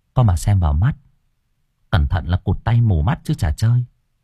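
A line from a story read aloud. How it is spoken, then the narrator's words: Soft warning. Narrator (Vietnamese): Cô Hương nói khẽ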